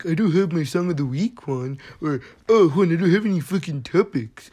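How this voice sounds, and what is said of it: Whiny imitation of another person's voice. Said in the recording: “Your impersonation voice is always on point ... it doesn't sound anything like what people sound like ... Like a whiny little bitch.”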